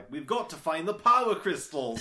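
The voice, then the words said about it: Thick North London accent imitation. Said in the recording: “he has this really thick North London accent”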